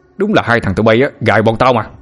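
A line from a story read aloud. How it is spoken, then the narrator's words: Familiar voice shouting from throat. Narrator (Vietnamese): Từ bên trong cổ họng của Na Già, một giọng nói rất quen quát lên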